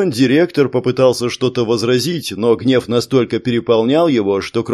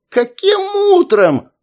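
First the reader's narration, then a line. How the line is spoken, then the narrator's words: Shrieking. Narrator (Russian): завизжал директор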